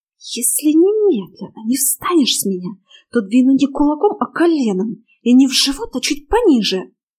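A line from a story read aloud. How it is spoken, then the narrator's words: Angry hissing whisper. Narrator (Russian): Злым, свистящим шепотом предупредила я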